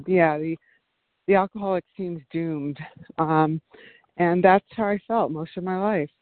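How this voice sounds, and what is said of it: Slightly out of breath. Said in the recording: “I'm walking, so I'm a little bit out of breath”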